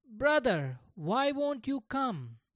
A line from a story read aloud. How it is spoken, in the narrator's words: Gopal called out again a third time